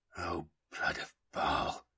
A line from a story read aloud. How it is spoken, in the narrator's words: Tycho whispered, realizing the full extent of what was being implied